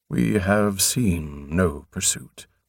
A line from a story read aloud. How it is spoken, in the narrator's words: Prothol replied gravely